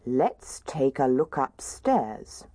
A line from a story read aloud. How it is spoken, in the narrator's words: said Daddy Bear